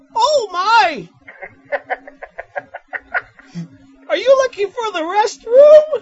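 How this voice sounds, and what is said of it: Cartoon piglet character voice. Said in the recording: “he does a Piglet voice ... I can do a Piglet voice”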